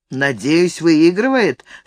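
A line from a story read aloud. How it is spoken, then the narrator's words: Gloomy. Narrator (Russian): сказал Том мрачно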